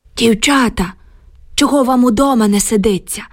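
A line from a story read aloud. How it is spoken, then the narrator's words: Loud whisper. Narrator (Ukrainian): гучно прошепотів він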